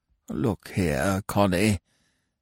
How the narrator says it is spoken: grumbled feebly

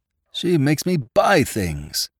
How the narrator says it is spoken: swain was overheard to moan

